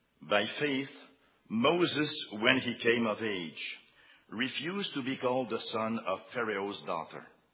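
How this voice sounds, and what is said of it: Speaks English with an accent. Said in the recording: “with my accent”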